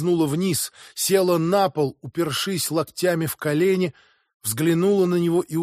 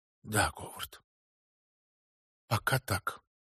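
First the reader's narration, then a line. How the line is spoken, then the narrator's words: Whispered. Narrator (Russian): она прошептала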